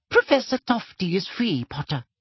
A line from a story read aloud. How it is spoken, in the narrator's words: squeaked Professor Flitwick